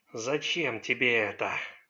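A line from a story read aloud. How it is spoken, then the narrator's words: Sinister whisper. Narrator (Russian): зловещим голосом прошептал он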